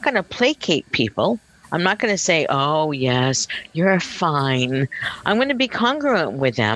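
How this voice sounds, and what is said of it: Usual voice. Nothing is said of it.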